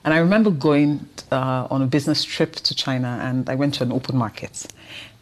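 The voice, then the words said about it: Nigerian accent. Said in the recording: “recognized my accent, that I was Nigerian”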